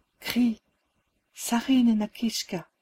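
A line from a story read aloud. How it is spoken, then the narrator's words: Whispered. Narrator (French): me souffla Élise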